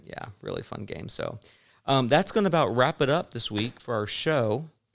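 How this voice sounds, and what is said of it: Slight Southern country accent. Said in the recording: “You sounded country when you said that ... Here in Texas”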